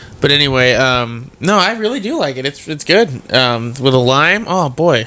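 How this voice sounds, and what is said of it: Usual voice. Nothing is said of it.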